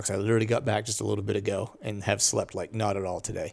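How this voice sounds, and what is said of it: Tired-sounding voice. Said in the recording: “why I sound tired”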